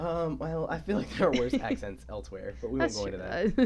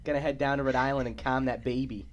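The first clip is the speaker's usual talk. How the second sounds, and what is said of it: Put-on Rhode Island accent. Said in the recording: “There's a whole lot of accents coming out right now. There's like Maine ones, there's Rhode Island ones.”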